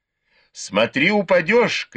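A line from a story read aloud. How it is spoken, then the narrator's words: Shouted after her. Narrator (Russian): крикнул ей вслед Бао Юй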